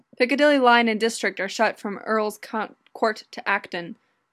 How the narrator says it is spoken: Rona grunts

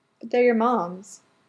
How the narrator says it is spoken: Lydia sighs

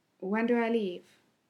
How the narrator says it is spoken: he asked

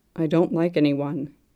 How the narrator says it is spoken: he says

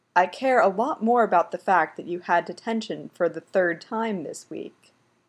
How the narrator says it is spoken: his dad replies calmly

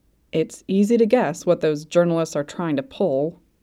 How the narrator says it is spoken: Kim Dokja grumbled

